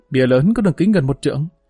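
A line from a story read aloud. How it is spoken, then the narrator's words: Hearty laughter. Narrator (Vietnamese): Tất Đô Ti bật cười ha ha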